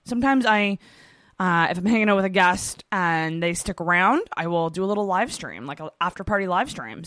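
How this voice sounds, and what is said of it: Worn-out, strained voice. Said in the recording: “My voice is shot.”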